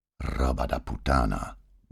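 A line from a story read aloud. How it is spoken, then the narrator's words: Muttering to himself. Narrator (German): murmelte er vor sich hin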